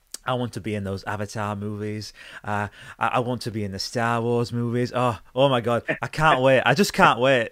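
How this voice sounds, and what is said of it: Imitates another person's voice. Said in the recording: “You sound just like him. ... You did a very good impression.”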